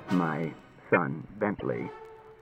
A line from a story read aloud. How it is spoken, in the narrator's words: said Bailey, in a low voice